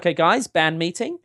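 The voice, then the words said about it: New Zealand accent, Murray's cadence. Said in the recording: “a New Zealand accent ... nailed it ... you've always kind of had the cadence of Murray, but that is creepy”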